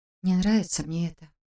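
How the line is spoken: Muttered. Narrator (Russian): пробормотал Саша

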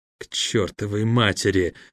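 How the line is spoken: Whispering. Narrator (Russian): прошептал Харон

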